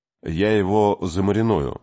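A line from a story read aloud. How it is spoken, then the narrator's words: Gloomy promise. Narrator (Russian): мрачно пообещал Кей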